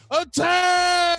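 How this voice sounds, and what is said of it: Screaming. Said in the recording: “I'm screaming”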